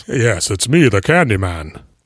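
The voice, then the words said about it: James Earl Jones impression. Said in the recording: “Is James Earl Jones the Candyman? ... You can do his voice.”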